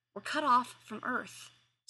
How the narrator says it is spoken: Sumner said tightly

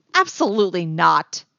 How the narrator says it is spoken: Leia snapped

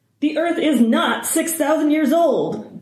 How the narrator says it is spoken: Hardison shouts

